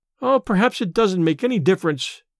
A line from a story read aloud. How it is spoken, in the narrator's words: sighed Letty